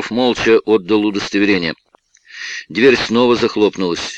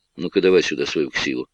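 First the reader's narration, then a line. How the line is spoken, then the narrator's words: Quiet demand. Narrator (Russian): мужчина тихо потребовал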